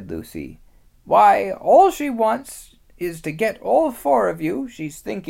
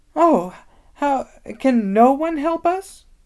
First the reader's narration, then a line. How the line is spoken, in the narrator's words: wailed Lucy